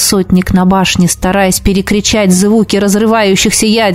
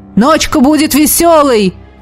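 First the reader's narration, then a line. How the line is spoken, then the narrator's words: Shouted into ear. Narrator (Russian): крикнул мне в ухо Элогим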